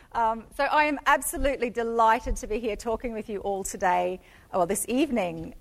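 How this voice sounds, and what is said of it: Strong Australian accent. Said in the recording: “I'm actually from Australia. I'm Australian ... some people expect to hear an Irish accent, and then I come on talking with my very Australian accent”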